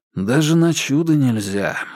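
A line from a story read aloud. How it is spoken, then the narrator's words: Sighing. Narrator (Russian): вздохнул Вербин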